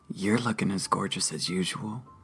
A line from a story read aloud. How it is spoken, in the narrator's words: he whispered to me